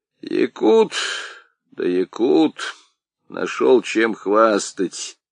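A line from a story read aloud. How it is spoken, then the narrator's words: Creaky old man's voice. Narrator (Russian): проскрипел старик Аргылов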